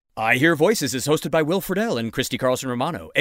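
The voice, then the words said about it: Announcer voice. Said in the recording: “that was my announcer voice”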